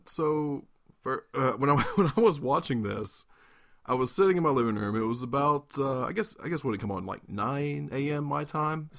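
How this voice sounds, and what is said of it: Sore, slightly sick-sounding voice. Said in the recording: “as you can hear from my voice, I'm a little under the weather. I was laughing and coughing and crying ... your voice is sore because you've been laughing”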